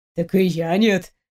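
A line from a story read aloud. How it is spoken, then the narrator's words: Playful laughing. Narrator (Russian): рассмеялся Стас, игриво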